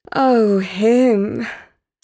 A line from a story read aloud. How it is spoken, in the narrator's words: sighed Portia